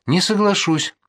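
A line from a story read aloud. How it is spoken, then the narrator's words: Trembling voice. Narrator (Russian): сказал дрогнувшим голосом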